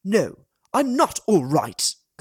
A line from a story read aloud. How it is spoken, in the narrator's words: Con spat